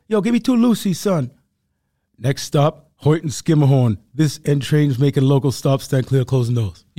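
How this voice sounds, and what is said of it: Put-on Harlem New York accent. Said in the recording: “I just gave a perfect rendition of what a day in New York sounds like ... But I was doing Harlem right now.”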